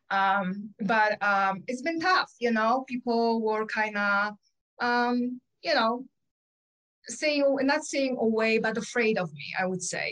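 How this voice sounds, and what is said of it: Polish accent. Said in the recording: “As you can tell, I have an accent. I was born in Poland. ... So I will never lose my accent”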